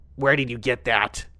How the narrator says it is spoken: she snarled

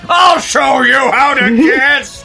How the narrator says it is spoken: he roared

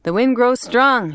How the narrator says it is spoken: he shouted

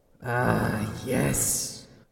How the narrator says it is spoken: the voice rumbled

